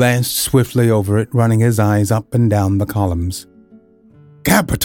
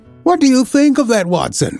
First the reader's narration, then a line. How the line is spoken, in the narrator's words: cried in high glee, rubbing his hands together with satisfaction